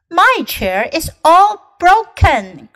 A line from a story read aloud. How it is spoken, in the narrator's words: cried Baby Bear